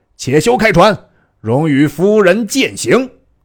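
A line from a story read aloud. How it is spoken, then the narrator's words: Shouting from the shore. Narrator (Chinese): 岸上有人大叫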